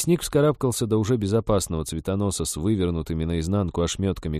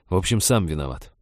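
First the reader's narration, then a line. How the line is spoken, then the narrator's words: Grumble. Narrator (Russian): проворчал он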